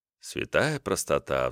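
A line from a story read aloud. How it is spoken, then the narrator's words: Sigh. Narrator (Russian): вздохнул я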